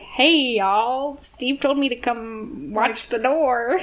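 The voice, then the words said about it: Bad put-on Southern accent. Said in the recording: “the worst Southern accent”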